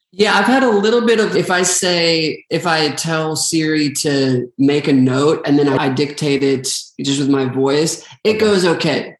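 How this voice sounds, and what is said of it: Philadelphia accent. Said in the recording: “with my Philly accent”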